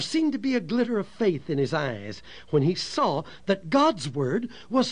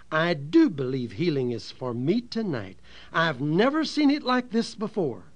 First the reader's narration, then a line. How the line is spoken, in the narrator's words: said very firmly